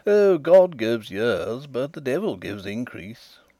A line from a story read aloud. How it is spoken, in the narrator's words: laughed he